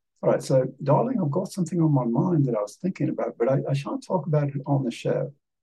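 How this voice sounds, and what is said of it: Put-on British accent. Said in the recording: “talking British again. I'll talk British.”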